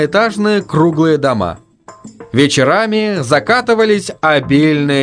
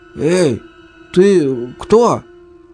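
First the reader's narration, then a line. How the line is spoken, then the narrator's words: Husky question. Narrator (Russian): сипло спросил Паша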